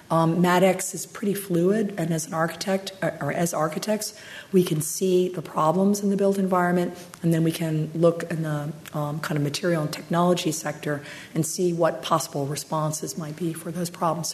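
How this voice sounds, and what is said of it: Strained, fading hoarse voice. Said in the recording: “I'm losing my voice. too much heated argument”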